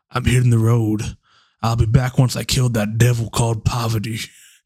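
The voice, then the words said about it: Attempted Southern drawl. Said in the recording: “in this like southern drawl, which I will not be able to do properly”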